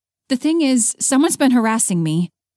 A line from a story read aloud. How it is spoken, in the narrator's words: Haley blurted out